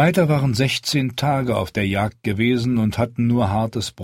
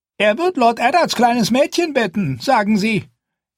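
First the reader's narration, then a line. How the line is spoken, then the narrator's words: Cook wailing. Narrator (German): jammerte Feists Köchin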